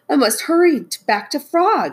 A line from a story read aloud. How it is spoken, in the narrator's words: he cried